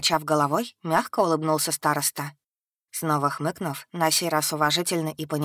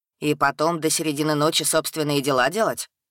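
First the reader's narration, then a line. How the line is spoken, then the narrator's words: Scoffing grunt. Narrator (Russian): хмыкнул гад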